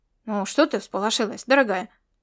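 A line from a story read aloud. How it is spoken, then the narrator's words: Displeased grumble. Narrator (Russian): пробурчал тот недовольным тоном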